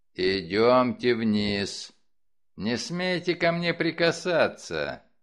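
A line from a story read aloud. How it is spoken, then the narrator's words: Growling. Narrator (Russian): Он рычал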